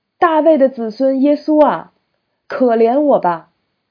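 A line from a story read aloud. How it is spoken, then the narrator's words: Loud shout. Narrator (Chinese): 他 大声的喊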